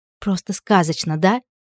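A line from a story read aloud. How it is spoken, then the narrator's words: Barely audible breathy exhale. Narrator (Russian): Еле слышно выдохнула Элли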